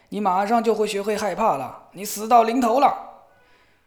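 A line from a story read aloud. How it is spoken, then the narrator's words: Roaring. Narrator (Chinese): 他吼叫道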